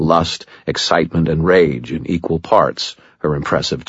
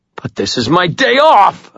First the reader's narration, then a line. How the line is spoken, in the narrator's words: howled